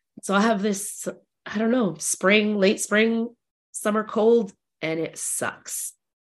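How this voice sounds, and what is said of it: Deep, throaty voice from a cold. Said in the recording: “my voice is a little bit, you know, deep throaty”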